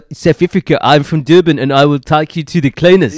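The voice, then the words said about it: Unrehearsed South African accent, sounding Welsh. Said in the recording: “I was totally unrehearsed... That sounded more Welsh, I'm sure.”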